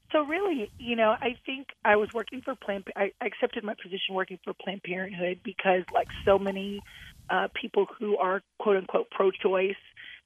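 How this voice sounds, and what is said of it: Hoarse voice from a cold. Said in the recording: “I have a little bit of a cold with losing my voice”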